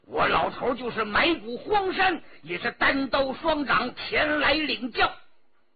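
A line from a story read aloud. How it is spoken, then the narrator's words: Furious yelling. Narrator (Chinese): 王维阳气得哇哇大叫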